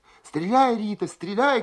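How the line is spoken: Women shouting together. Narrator (Russian): кричали зенитчицы

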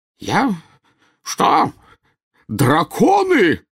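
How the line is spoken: Spluttering yell, man. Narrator (Russian): завопил, брызгая слюной, премьер-министр

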